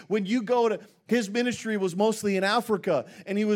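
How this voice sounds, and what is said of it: Usual voice. Nothing is said of it.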